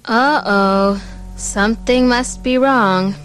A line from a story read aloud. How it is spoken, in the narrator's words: Pamela muttered to herself